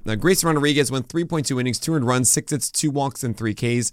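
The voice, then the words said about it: Lower, strained voice after losing it. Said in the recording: “radio voice right now because I lost my voice ... this lower, weirder voice today”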